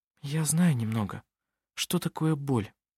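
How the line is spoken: Quiet. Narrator (Russian): тихо сказала Анна-Мария

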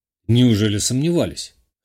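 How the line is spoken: Snorting, then coughing. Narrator (Russian): хмыкнул я и пару раз кашлянул

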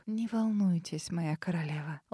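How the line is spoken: Gentle, affectionate. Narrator (Russian): ласково произнесла она

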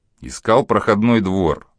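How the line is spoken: Calm. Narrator (Russian): спокойно ответил Григорий

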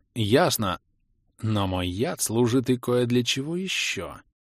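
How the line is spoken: Purring. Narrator (Russian): продолжила мурлыкать Снесса

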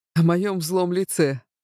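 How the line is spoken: Snort. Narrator (Russian): хмыкнул Авинар

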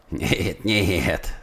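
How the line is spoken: Laughing. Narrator (Russian): сказал фрезоргер, смеясь

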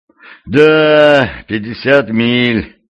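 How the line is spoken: Sigh. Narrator (Russian): вздохнул крестоносец

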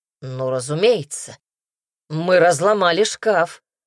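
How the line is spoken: Snorting. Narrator (Russian): фыркнул Казимир

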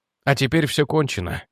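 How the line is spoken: Quiet. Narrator (Russian): тихо сказал Реджи

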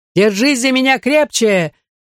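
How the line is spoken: Shouting. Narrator (Russian): крикнула Нине

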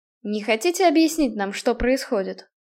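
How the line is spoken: Plain. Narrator (Russian): спросил Намат

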